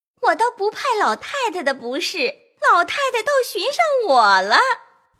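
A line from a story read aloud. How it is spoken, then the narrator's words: Laughing. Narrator (Chinese): 凤姐笑道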